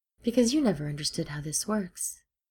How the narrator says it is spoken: said calmly

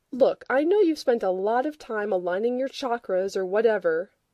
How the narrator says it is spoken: Rodney said

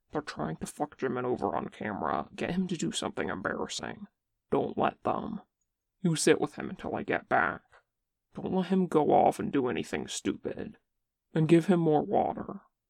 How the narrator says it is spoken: like he's drunk and emotional, and whispers rapidly in his ear

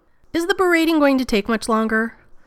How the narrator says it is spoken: Rodney raised his voice to talk over Shepard

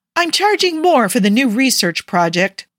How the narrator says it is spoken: Parker said, also loudly

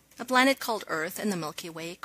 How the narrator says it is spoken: Carter said

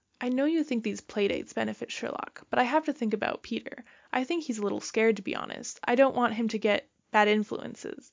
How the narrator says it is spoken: Marianne blurts out

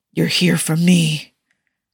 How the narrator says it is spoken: Tony whispered forcefully

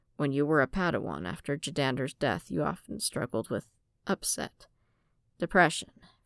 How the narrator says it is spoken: Qui-Gon sighed, resigning himself to the certainty that Fëanor wouldn't let this matter go, and quietly said

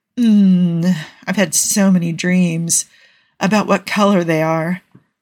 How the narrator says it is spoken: Carl moaned distractedly

